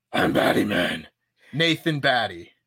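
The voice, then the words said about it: Batman impression voice. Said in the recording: “Do the voice. ... Batman voice? Do Batman voice? Do it.”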